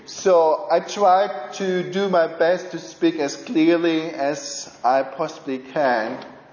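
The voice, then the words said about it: German accent. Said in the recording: “there is a strange accent you are exposed to today, and it's the German accent.”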